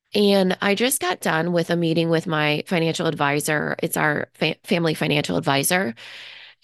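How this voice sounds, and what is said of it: Sick-sounding voice. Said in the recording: “I'm feeling sick ... you can probably kind of hear it in my voice”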